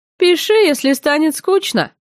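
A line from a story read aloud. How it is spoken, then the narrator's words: Mocking snort. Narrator (Russian): обидно хмыкнул он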